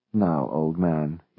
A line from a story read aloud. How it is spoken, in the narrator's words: he murmured